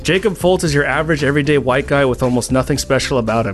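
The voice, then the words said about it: Reads very fast. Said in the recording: “I gotta say this fast.”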